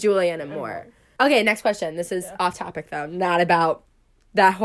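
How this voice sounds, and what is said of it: Usual voice. Nothing is said of it.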